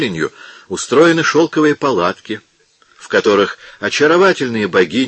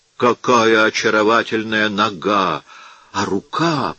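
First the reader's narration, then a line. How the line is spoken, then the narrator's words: King whispering. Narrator (Russian): прошептал король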